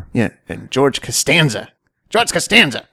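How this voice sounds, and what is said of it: Impression of a sitcom character's voice. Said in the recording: “That's my George Costanza impersonation. ... Spot on.”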